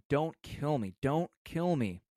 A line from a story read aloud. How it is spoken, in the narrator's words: Paulina Lopez pleaded in Spanish, saying